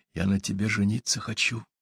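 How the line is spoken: Whisper. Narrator (Russian): зашептал он

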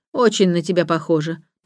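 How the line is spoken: Grumbling. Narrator (Russian): пробурчала Марта

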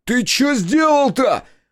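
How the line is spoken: Roar. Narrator (Russian): взревел я

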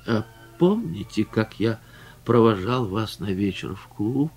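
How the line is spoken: Plain. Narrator (Russian): сказал он

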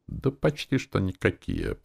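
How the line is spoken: Mumbling. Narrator (Russian): промямлил

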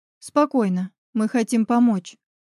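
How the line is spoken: Soft nearby voice. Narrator (Russian): мягко произнес голос рядом

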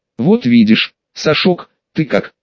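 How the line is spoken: Plain. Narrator (Russian): спросил Зимин

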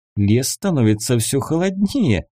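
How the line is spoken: Laughing. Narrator (Russian): засмеялась она

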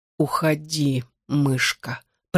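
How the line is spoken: Hoarse wheeze. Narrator (Russian): прохрипел он

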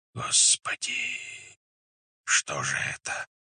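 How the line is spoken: Whispered. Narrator (Russian): зашептали сторонники

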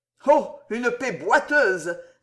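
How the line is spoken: Loud sneering laugh. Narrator (French): ricana tout haut l'orfèvre

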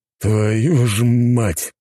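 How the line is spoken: Hissing. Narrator (Russian): прошипел инспектор

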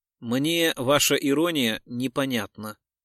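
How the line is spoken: Calm. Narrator (Russian): спокойно заметил Гуров

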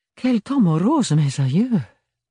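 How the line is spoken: Sigh. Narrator (French): soupira Bérénilde

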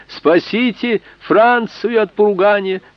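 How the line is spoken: Shout from the doorway. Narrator (Russian): Еще с порога он крикнул

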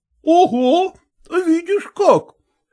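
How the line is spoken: Laughing servant. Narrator (Russian): засмеялся лакей

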